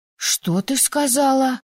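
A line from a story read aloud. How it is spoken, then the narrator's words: Breathed out in unison. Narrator (Russian): одновременно выдохнули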